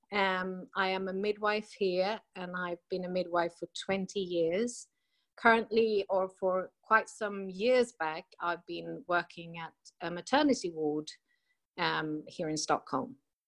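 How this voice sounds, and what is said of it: Half British accent. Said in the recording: “I have this sort of half British accent ... Yeah, I hear it. It's wonderful.”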